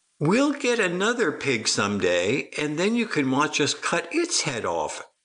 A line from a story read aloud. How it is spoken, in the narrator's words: said Felicity, ever so sweetly, sounding like a Hollywood serial killer